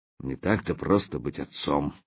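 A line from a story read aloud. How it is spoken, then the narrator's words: Mumbling elephant. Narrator (Russian): пробормотал слон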